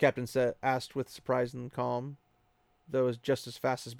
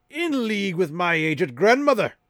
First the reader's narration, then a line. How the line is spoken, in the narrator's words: Captain Doman roared